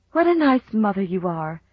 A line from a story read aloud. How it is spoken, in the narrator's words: she sighed